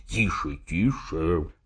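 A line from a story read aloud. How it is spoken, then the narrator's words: Whisper. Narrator (Russian): зашептал мне Смерчев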